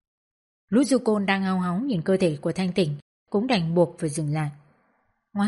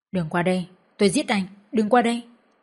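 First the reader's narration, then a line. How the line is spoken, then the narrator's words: Terrified trembling scream. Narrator (Vietnamese): Thanh Tịnh run rẩy hét lên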